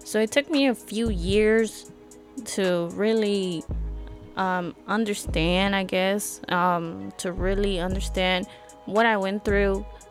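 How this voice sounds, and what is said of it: Slightly emotional voice. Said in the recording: “I'm a little emotional when I talk about it now”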